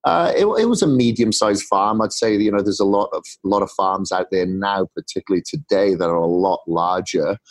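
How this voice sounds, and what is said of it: Welsh accent. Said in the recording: “the weird accent comes from Wales”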